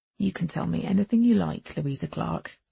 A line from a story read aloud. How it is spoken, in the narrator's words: he said softly